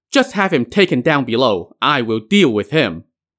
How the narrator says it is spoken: Daji called out

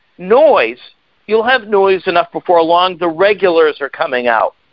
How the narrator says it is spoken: I was put out, and I yelled out

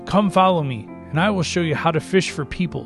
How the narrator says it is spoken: Jesus called out

